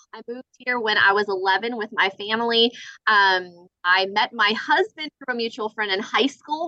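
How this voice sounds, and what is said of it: Slight Southern American accent. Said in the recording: “you may hear a little bit of a Southern accent.”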